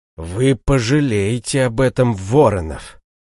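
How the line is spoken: Hiss. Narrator (Russian): прошипел он

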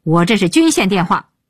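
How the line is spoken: Yelling. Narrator (Chinese): 鹏飞对电话大吼

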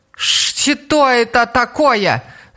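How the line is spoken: Shout. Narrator (Russian): закричала она

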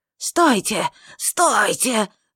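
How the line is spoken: Shrill scream. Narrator (Russian): закричала она пронзительным голосом

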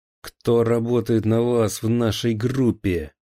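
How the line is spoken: Shouting. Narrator (Russian): закричал

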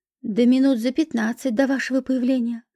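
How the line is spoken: Plain. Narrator (Russian): ответил Феофанов

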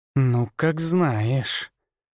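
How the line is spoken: Through gritted teeth. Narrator (Russian): процедила сквозь зубы Марина

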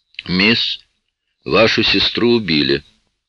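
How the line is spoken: Flat even tone. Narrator (Russian): ровным тоном сказал шериф

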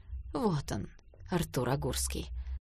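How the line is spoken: Tired voice. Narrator (Russian): Ольга Сергеевна усталым голосом сказала

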